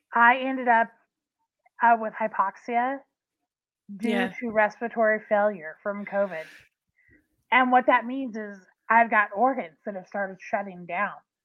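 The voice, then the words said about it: Weak, breathy voice cutting out. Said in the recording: “hear it in my voice now ... My voice is already cutting out. Because my lungs, I've got diminished capacity in my lungs”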